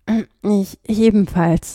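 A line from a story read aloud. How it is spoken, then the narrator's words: Cracking voice. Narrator (German): sagte er mit brüchiger Stimme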